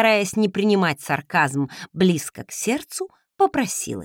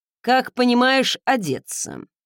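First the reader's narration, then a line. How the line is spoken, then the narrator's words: Snorting. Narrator (Russian): хмыкнул он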